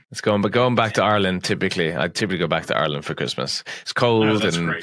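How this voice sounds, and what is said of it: Irish accent. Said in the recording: “I bet you can do that well with that accent.”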